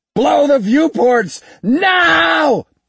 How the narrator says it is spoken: he yelled

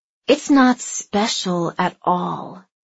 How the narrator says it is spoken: Andy hissed

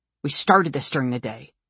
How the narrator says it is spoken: snaps

